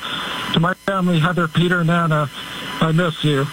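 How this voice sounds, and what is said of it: Emotional, voice thick with feeling. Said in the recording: “You can hear the emotion in his voice”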